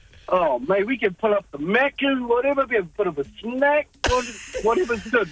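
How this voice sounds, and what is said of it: New Zealand accent. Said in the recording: “You know how sexy the New Zealand accent is? ... the Kiwi accent ... there's something sexy about the Kiwi accent”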